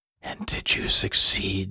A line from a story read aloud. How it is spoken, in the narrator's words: she whispered